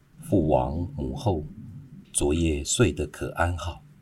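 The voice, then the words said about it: Quiet, hushed question. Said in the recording (Chinese): “小声的询问”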